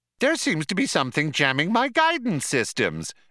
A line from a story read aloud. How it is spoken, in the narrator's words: explained the computer brightly